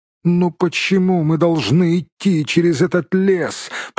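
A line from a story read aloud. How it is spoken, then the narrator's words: Moaning hobbit. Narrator (Russian): простонал хоббит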